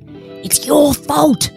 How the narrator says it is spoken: whisper screamed

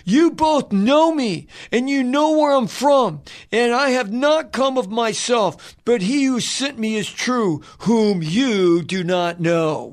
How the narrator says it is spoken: Jesus cried out

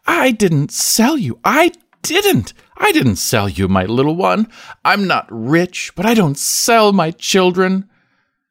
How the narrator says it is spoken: ostentatiously exclaiming as if he understood

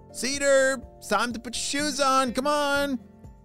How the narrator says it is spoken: shouted his mom

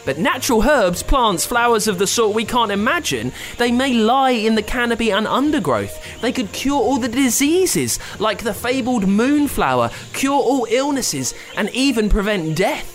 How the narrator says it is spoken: said the interviewer urgently

